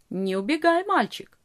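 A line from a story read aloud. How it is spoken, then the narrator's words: Calm objection. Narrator (Russian): спокойно возразил он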